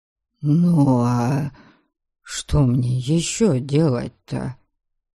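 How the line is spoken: Apologetic mutter. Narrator (Russian): Извиняющимся тоном пробормотал Дариан

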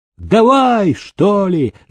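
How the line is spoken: Shouting from a tower. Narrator (Russian): закричал невидимый человек с вышки

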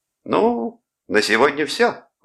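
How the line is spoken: Exclamation. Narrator (Russian): воскликнул Клод

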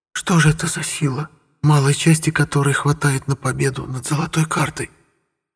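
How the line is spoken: Barely audible dying whisper. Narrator (Russian): Еле слышно шептали губы на теле, лежащем в расплывающейся луже крови

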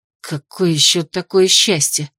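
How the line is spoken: Grumpy, sleepy grumble. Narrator (Russian): недобрым голосом проворчала разбуженная слишком рано Ада

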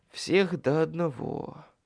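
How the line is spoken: Muttered. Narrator (Russian): пробормотал я

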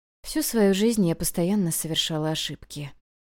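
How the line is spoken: Quiet. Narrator (Russian): тихо сказала

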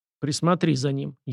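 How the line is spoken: Barely audible command. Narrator (Russian): еле слышно скомандовал Сашка

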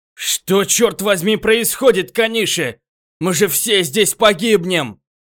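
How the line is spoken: Shouting. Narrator (Russian): прокричал Йошизава

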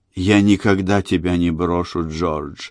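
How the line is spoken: Frenzied whisper. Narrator (Russian): исступленно шептала она

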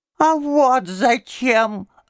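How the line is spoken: Thin little voice. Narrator (Russian): отвечал он тоненьким голоском

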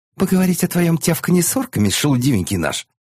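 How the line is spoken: Sudden sharp interjection. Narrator (Russian): Неожиданно резко вступила в разговор Хрис

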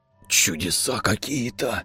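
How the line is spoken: Breathed out. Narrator (Russian): Выдохнул прапор

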